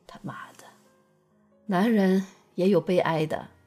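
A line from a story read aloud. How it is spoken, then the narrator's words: Sighing. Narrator (Chinese): 少华叹口气说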